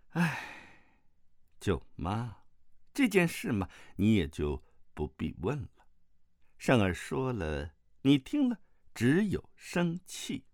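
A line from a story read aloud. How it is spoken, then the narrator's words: Sighing. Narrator (Chinese): 慕容复叹了口气，说道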